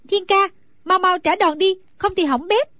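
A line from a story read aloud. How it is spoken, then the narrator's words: Anxious cry. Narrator (Vietnamese): Nàng hồi hộp lo lắng, bèn la lên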